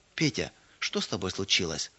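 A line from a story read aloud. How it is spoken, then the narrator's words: Gentle question. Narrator (Russian): Ласково спросила она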